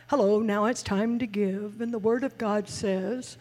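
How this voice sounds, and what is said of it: Imitates another person's preaching voice. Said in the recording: “he uses a different tone with his family ... He has a different tone ... that a pretty good impersonation”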